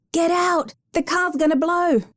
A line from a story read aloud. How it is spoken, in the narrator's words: A man's voice outside yelled